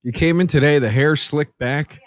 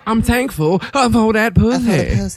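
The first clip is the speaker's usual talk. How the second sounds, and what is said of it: Imitates another person's voice. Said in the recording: “That voice seems racist... That was my Angela Bassett impression.”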